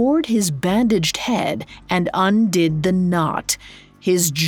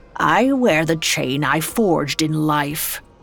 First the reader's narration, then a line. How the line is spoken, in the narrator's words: he said grimly